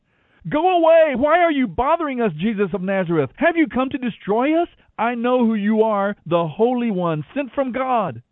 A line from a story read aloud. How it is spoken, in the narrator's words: a man possessed by a demon began shouting at Jesus